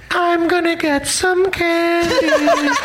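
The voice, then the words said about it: Small child's voice. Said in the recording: “my impression of a small child trapped in the bottom of a well who doesn't understand the seriousness of the predicament”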